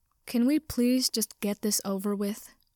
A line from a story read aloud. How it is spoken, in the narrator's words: Hitoshi groaned